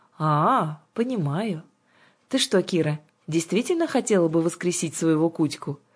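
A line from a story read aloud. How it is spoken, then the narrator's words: Casual matter-of-fact question. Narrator (Russian): Самым что ни на есть обыденным тоном поинтересовалась Жанна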